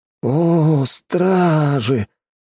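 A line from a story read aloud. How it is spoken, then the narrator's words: Dreamy drawl. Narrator (Russian): мечтательно протянул Дэн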